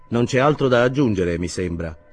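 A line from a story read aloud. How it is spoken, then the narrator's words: Cold remark. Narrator (Italian): osservò freddamente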